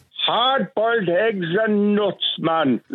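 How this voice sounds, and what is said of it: Oliver Hardy impression. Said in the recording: “I'm watching the one where Oliver Hardy is upset because Stan has only brought him hard-boiled eggs and nuts... I'll do an impression... It's uncanny.”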